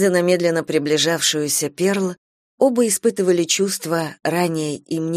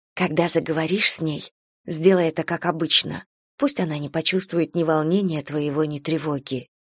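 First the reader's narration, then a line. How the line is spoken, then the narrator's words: Whisper. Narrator (Russian): шепнула Эстер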